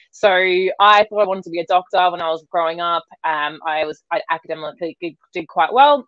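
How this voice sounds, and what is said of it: Australian accent. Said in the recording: “if you can't tell, as I said, from my accent, I am Australian”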